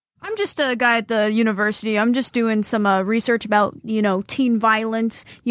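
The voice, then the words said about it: Put-on tough guy voice. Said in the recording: “does his tough guy voice”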